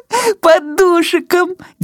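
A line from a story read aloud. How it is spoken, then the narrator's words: Ringing girlish laughter. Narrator (Belarusian): дзяўчынка звонка засмяялася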